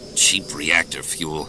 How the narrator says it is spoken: Han grumbled

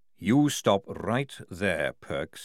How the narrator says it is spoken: he said, lowering his voice

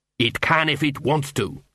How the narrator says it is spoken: snapped the ghost of Cuddy

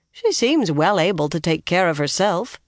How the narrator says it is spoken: Brigitta said dryly

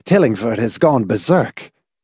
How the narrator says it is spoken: Laws gasped

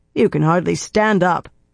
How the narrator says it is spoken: Brigitte growled

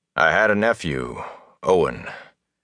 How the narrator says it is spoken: said wearily

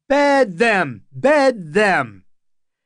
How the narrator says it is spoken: half the wedding guests were on their feet and shouting

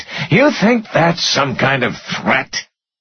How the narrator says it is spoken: sneered

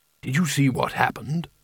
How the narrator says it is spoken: He whispered

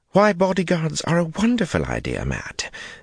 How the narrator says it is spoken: Elaine exclaimed, her cheek dimpling in a smile

